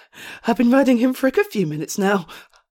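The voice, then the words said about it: Breathless, panting speech. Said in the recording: “That's why I'm so out of breath.”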